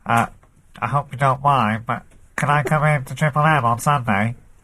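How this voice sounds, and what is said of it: Imitates another person's voice. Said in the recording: “putting on a stupid accent ... That's better. That's quite good, actually. ... It's actually a brilliant impression. ... Frank Sidebottom”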